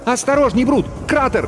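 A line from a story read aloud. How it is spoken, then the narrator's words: Shouted warning. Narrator (Russian): закричала Халява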